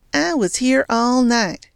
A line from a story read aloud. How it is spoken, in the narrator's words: said Churdy sweetly